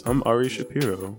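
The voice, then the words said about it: NPR announcer voice. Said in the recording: “Give me your best NPR voice.”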